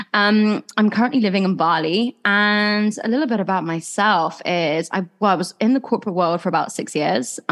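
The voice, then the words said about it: English accent with Australian twang. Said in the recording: “As you can probably tell, I'm English. I actually used to live in Australia, so I have probably a bit of a twang on the accent front.”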